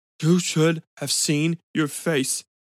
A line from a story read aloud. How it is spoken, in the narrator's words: said between gasps